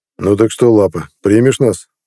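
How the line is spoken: Calm inquiry. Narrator (Russian): Спокойно осведомился Нед

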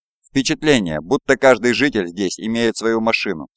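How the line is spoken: Plain. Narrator (Russian): сказал я

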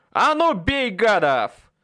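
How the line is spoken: Yelling. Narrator (Russian): Заорал я

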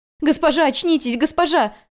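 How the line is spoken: Sobbing. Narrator (Russian): рыдала она

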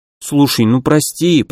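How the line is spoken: Mumbling. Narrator (Russian): пробормотал Лианг

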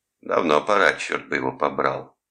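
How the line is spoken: Grumbling. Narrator (Russian): проворчал Шульц

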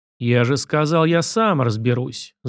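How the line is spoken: Growled, then broke off. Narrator (Russian): зарычал Сашка и осекся

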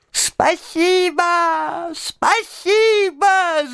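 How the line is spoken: Squeaky shout. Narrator (Russian): закричал он пискляво

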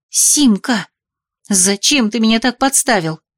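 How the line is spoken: Angry hiss. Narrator (Russian): зашипела я на Симурана рассерженно

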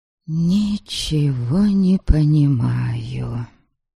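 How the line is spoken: Barely audible whisper. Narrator (Russian): чуть слышно прошептала я

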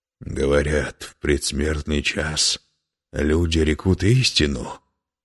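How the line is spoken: Hoarse laughter. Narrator (Russian): хрипло смеялся

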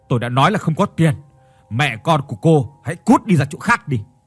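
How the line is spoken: Harsh, gritted voice. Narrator (Vietnamese): Hiếu gằn giọng nói

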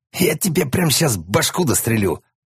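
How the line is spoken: Angry interruption. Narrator (Russian): зло перебил его пиво

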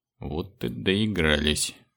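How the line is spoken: Unnaturally calm. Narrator (Russian): неестественно спокойным голосом произнес спецназовец

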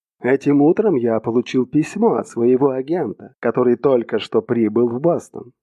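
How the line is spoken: Plain. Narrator (Russian): сказал Хопкинс

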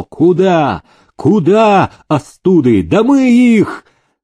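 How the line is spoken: Cossack shouting. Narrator (Russian): Казак Михаил Уржумцев кричал

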